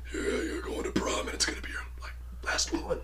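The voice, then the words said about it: Raspy, creepy caller voice. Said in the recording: “It's a creepy voice. I'm not doing it right. ... It's raspy and creepy, and that's pretty much how it sounds.”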